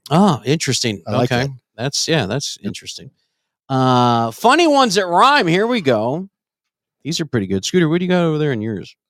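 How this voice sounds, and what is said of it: Strained voice, losing his voice. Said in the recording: “I'm losing my voice. ... Why are you losing your voice?”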